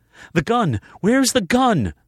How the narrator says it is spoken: Savannah cried out, the sound of her voice indicating that she was on the move

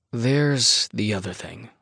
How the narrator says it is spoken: I mumble, unable to meet his eyes

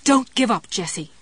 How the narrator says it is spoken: Ruth yelled

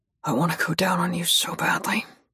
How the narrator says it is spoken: he rasps into my mouth

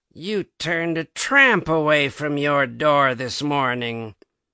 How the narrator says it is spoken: said in a peculiarly sneering way

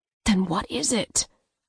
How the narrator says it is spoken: I asked, lowering my voice

